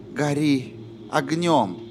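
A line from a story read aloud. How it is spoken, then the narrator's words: Whispered. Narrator (Russian): прошептала Корделия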